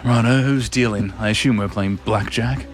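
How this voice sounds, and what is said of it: James Bond accent with swagger. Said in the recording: “He's got a bit of swagger. ... Do I have to keep up the accent? ... Nice bit of swagger about you.”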